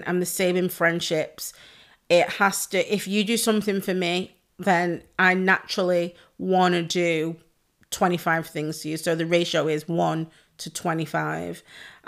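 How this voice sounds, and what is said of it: Hoarse, losing her voice. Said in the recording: “My voice is gone. How am I losing my voice”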